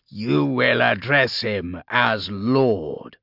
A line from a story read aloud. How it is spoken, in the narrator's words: growled Joseph